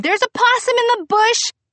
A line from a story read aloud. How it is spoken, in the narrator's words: I called Victor on the cell phone and screamed